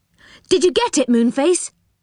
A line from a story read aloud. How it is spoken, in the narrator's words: They cried